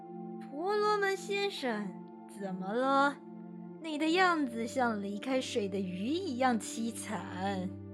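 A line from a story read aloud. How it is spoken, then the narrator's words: Crying out. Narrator (Chinese): 豺狼叫道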